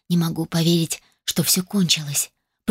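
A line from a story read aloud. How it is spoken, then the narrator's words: Whisper. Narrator (Russian): прошептала я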